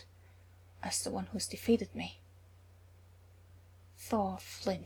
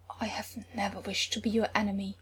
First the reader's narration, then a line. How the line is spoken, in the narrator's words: he said brokenly